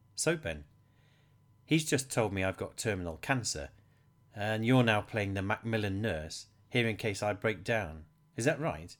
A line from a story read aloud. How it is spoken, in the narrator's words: Henry asked